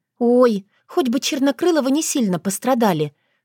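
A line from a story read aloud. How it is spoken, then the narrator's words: Pleaded silently to herself. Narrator (Russian): взмолилась она про себя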